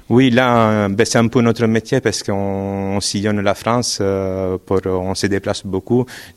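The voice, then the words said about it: Italian accent speaking French. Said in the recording (French): “Vous avez un accent qui n'est pas tout à fait sartois ... J'imagine qu'en Italie”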